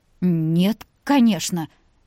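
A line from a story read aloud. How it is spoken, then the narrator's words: Woman's confused mumble. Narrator (Russian): растерянно пробормотала женщина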